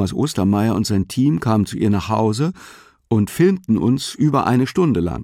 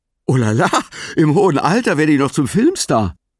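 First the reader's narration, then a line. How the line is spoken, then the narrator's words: Added laughing. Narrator (German): Lachend fügte hinzu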